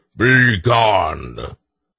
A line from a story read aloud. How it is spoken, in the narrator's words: Each time struck, he roared